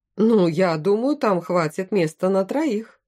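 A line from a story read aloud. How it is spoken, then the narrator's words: Laughing king. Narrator (Russian): рассмеялся король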